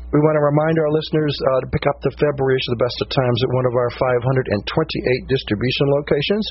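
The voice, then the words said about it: Hoarse, crackly laryngitis voice. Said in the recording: “laryngitis ... I sound differently ... I have a little crackly sound. I even hear it myself. I'm just trying to breathe and keep going.”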